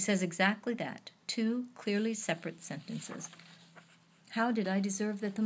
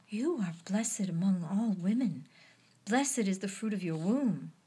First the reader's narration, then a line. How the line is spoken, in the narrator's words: bows in a deep salutation, exclaiming